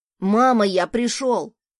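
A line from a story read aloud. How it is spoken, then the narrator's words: Shouted from another room. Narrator (Russian): прокричал с кухни сын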